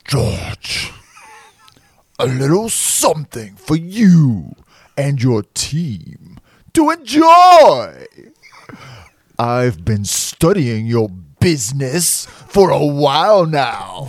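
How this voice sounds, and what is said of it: Funny or creepy character voice. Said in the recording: “read this in a funny character voice ... Or read it in a creepy...”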